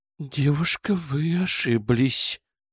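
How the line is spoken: Strange tone. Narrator (Russian): произнесла Нина странным тоном

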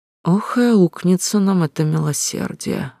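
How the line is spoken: Sudden mutter. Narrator (Russian): внезапно пробормотал Лео

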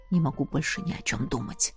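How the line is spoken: Mumbling. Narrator (Russian): пробормотал Эш

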